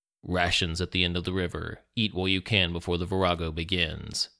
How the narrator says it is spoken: said in a deep voice

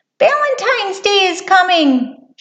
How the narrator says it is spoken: squeaked

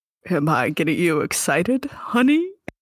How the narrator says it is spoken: He purrs into your ear

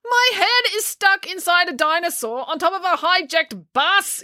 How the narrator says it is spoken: yelled

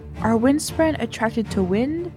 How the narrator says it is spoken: She asked softly

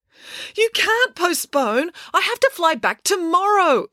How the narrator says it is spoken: exclaimed Mirabella

